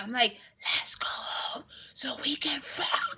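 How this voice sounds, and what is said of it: Whispered line. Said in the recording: “So I tried whispering.”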